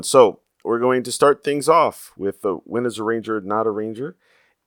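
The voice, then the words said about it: Slightly sick, off-sounding voice. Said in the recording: “I believe, coming down with something, so my voice is a little weird”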